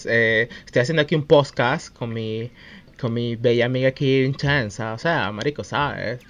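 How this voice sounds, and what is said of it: Put-on posh Caracas accent. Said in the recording (Spanish): “acento de, caraqueño mariquito de que vive en, en la high”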